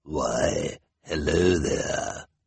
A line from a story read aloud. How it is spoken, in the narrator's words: the first one said in a sinister voice